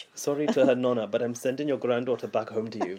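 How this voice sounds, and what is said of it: Put-on accent, sounds South African. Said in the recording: “I like the fact you're doing the accent. ... I don't think I'm very good at it. ... You're more South African.”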